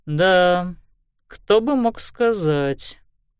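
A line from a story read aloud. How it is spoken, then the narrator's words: Drawling. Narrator (Russian): протянул инспектор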